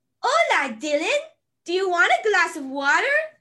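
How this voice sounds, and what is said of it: Dora the Explorer cartoon voice. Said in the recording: “say it in the Dora voice ... That's so good.”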